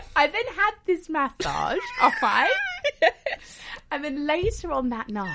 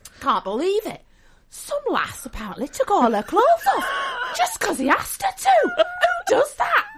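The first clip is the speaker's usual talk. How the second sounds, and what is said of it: Attempted northern English accent. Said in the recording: “a table of northerners ... Well, I can't do the accent, but it doesn't matter. I'll go with it anyway.”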